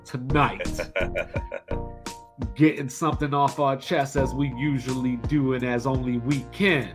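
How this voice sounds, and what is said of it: Put-on radio announcer voice. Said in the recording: “That's my radio voice”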